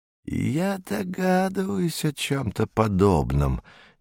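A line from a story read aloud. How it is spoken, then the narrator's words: Unexpectedly soft voice. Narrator (Russian): неожиданно мягким голосом произнес астролог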